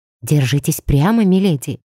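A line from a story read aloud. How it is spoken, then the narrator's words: Whispered. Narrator (Russian): прошептала Мари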